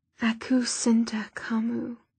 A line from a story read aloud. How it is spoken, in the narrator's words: Softly, Magnus said